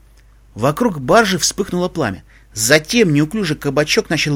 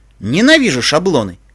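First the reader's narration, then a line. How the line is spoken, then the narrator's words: Snorting, wry. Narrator (Russian): фыркнул наш штатный юморист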